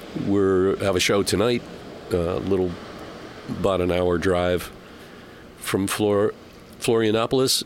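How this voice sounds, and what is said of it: Voice sounds sick with a cold. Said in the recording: “I don't know if you can tell by my voice, I'm battling a little bit of a cold”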